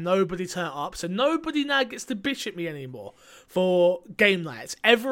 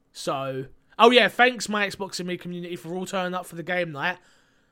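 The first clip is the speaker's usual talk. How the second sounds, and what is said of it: Sarcastic tone. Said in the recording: “That was sarcasm,”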